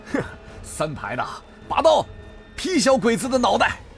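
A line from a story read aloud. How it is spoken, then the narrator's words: Hearty laugh. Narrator (Chinese): 向峰哈哈一笑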